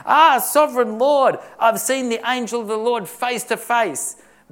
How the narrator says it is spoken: when Gideon saw that it was the angel of the Lord that came to him, he exclaimed

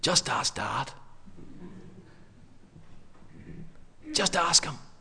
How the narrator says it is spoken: the older, wiser sibling whispers to the younger one, says

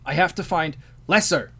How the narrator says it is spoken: the vizier shouted over Tao

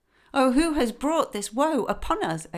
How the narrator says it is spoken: exclaimed all the women, in great fear

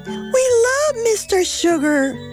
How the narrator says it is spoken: they cried

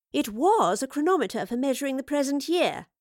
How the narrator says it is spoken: explained, then paused as he scoffed at the notion

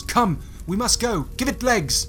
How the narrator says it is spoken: looks on nervously at the other two in the alley, he yells

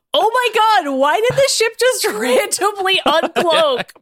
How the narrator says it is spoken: Maddie screamed

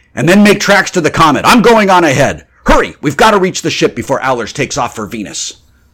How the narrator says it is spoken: Grant shouted

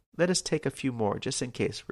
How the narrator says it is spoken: replied Lavanga

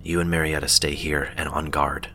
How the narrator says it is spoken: he whispered

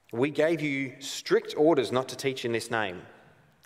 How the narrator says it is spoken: he said

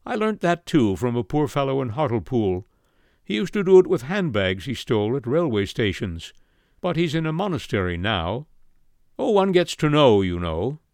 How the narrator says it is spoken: he added rather sadly

